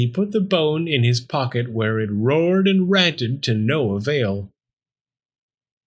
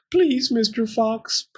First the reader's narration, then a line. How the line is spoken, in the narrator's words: Pearl whimpered